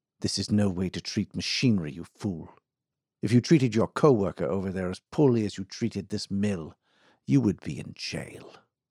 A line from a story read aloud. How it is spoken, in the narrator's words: saying quietly but with real intensity